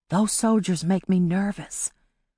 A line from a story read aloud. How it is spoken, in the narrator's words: Polly whispered to Amari, not wanting Tidbit to hear